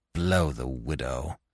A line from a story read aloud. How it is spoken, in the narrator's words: he growled